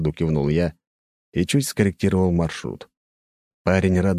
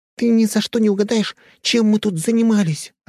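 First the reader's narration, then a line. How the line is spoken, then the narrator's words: Joyful blurt. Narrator (Russian): радостно выпалила Нюша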